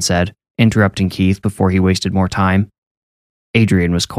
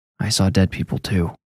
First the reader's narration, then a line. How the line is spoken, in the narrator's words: Keith bit his lip, then quietly said